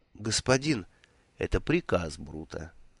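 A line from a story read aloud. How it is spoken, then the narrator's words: Gentle, affectionate. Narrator (Russian): ласково произнес Ворбис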